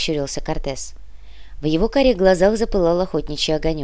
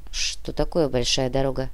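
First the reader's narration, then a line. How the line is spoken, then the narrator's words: Quiet question. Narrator (Russian): тихо спросил наемник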